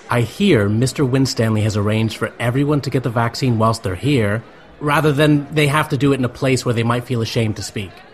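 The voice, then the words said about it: American accent. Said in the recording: “I had this stupid American accent”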